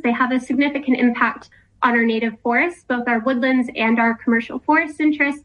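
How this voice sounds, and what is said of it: American accent. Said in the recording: “You'll clock from my accent. I come from America”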